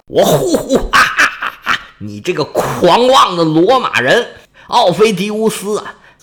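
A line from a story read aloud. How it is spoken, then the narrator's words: Loud laughter. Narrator (Chinese): 城上的元老是哈哈大笑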